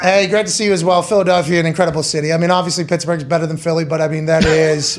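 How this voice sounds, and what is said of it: Western Pennsylvania accent. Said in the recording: “your accent, it sounds like my entire family. I didn't realize that you were from Plum, Pennsylvania ... you got the O's and the home and the phone”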